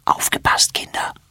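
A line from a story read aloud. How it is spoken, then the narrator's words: Whisper. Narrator (German): flüstert sie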